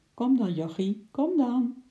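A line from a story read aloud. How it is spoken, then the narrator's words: Sweet coaxing voice. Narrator (Dutch): zei ze met een lieve stem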